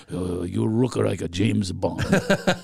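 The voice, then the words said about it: Imitates a Japanese man's accent. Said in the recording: “I'm not doing a racist accent. It's actually what he sounded like ... I'm doing an impression of somebody that sounds like that”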